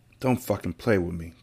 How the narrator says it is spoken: he whispered

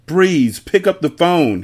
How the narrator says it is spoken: he yelled

